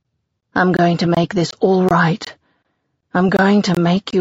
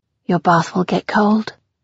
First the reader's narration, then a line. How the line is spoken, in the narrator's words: I mumble into his bare chest